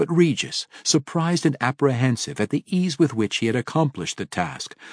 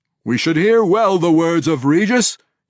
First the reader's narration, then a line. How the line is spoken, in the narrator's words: he declared loudly